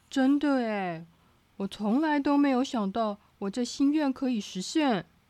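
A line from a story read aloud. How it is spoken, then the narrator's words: Excited shout. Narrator (Chinese): 糟糕先生兴奋的叫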